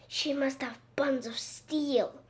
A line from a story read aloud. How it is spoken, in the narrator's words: Ryan whispered